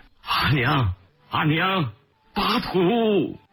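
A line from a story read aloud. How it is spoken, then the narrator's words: Loud shout. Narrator (Chinese): 陈真跳下车大喊着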